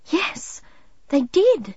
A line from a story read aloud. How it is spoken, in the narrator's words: Midge gasped, realizing